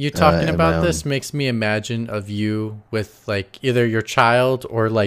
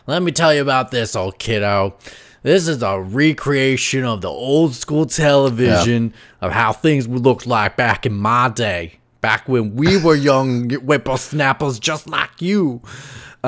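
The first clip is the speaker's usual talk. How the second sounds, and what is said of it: Confusing put-on accent. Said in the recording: “Another very, very, very confusing accent ... Not sure who you're trying to be”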